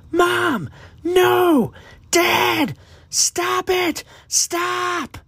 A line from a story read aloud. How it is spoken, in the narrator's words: Aiden screamed as he watched his mother fall at his father's feet